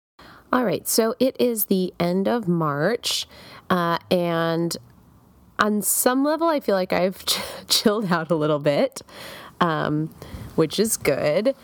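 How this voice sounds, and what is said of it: Stuffy, sick-sounding voice. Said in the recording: “I don't know if you can tell from hearing my voice, but I have a cold”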